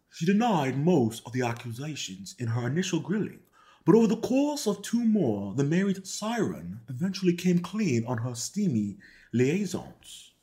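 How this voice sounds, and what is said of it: Put-on British accent. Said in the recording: “let me see if I can do this like in a British accent ... just doing some little voice acting here and there”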